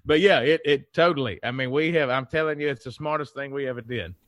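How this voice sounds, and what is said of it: Southern American accent. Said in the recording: “I don't think that your Southern accent will go over up here, but I love it.”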